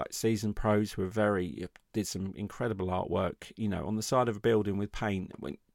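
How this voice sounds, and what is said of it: English accent. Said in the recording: “they hear my accent, and they say, oh, you're Australian ... I was an Englishman”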